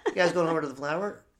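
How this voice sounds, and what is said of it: Put-on California Chicano accent, up talk. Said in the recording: “the California Chicano accent, ... There's a little bit of an up talk at the end.”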